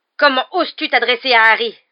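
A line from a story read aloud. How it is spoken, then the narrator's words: Roared. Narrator (French): rugit Black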